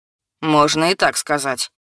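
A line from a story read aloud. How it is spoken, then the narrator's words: Calm, normal voice. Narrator (Russian): согласился Люка, но уже не резко и не злобно, а своим обычным голосом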